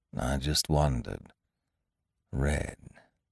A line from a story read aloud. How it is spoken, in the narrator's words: he murmured to himself